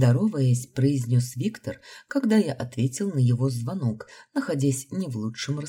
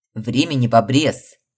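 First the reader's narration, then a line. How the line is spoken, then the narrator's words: Barked, near breakdown. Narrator (Russian): рявкнул высший, видимо, тоже находясь на грани нервного срыва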